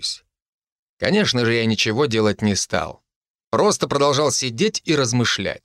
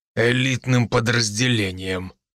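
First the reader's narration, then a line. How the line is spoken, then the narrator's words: Through gritted teeth. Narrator (Russian): процедил сквозь зубы мастер Гром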